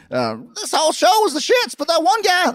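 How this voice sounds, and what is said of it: Jim Cornette impression. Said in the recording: “my Jim Cornette imitation”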